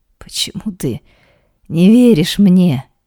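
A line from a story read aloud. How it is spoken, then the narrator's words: Hoarse, choking on tears. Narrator (Russian): хрипло произносит она, задыхаясь от слез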